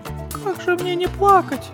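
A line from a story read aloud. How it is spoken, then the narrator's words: Tearful little girl. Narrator (Russian): ответила сквозь слезы малышка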